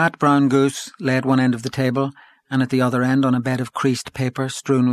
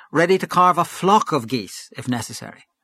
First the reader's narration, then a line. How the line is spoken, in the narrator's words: cried Gabriel with sudden animation